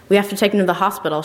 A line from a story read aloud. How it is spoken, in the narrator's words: she blurts out